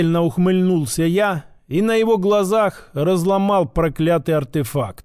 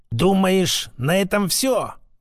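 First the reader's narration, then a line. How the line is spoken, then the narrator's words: Angry exhale, old man. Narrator (Russian): зло выдохнул старик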